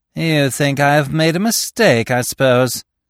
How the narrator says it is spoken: he sneered

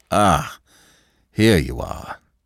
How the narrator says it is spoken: he said, with a sigh of relief

